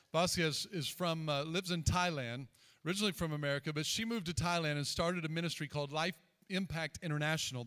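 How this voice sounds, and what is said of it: Southern American accent. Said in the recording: “It's my southern accent, I think.”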